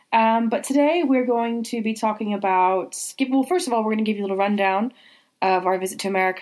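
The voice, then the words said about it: Voice sounding like a cold. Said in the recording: “As you can tell from my voice, I'm battling yet another cold”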